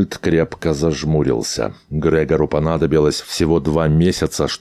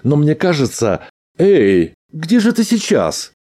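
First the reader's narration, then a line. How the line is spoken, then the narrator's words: Pleased chuckle. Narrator (Russian): Грегор довольно хохотнул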